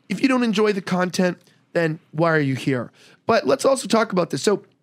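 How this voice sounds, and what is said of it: Hoarse, raspy voice. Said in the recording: “I am laryngitis lige today. Gosh, this is the worst. ... you look a lot better than you sound.”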